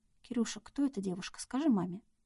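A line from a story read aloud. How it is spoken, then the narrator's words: Whispering. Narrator (Russian): прошептала Надя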